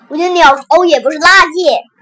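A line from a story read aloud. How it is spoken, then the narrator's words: Desperate shouting. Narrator (Chinese): 小熊哥哥也扯着上面拼命喊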